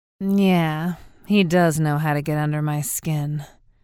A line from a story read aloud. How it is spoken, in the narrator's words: said, followed by silence, then a sigh